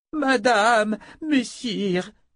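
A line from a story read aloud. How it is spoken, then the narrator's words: Woman moaning. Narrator (French): gémit une des femmes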